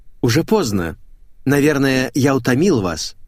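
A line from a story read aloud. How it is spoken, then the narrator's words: Forced cheer, hiding nerves. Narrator (Russian): Стараясь скрыть волнение, неестественно весело произнес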